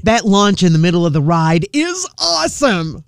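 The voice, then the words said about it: Put-on weird enthusiastic voice. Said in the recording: “Why do you put on such a weird voice? ... That's my awesome voice”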